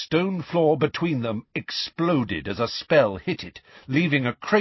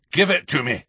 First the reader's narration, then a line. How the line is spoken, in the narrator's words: growled a voice in his ear